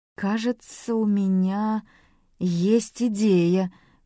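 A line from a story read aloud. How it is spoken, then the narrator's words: Slow, deliberate speech. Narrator (Russian): медленно выговорил Манн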